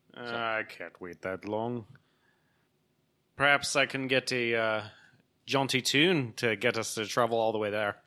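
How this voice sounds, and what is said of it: Put-on character accent. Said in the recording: “You're not going to do an accent the whole time you do this character, are you?”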